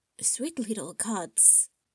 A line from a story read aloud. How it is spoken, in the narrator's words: Rex whispered next to him